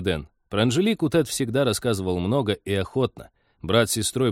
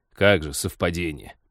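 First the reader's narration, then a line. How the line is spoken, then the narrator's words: Contemptuous snort. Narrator (Russian): презрительно хмыкнул пилот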